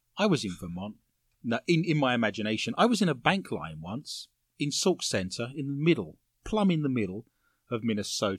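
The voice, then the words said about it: English accent. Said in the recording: “a gentleman recognized my foreign accent ... I'm English”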